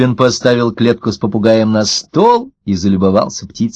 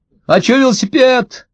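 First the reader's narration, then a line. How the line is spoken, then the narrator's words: Shout from the yard. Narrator (Russian): крикнул со двора Максимка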